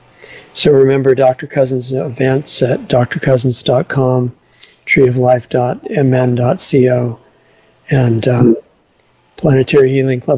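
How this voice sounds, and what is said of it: Weakened, not fully recovered voice. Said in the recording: “you can tell by my voice, I'm not fully back”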